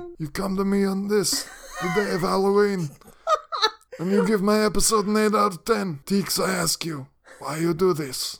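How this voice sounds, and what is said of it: Italian-American mobster Godfather accent. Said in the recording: “that accent ... It's Godfather.”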